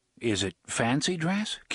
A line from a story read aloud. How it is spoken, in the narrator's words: Cuthbert asked uneasily